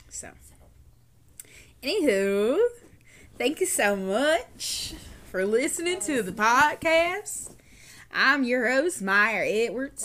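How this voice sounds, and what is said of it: Put-on Southern American accent. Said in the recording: “Why are you talking like that? ... There's just something about that southern accent”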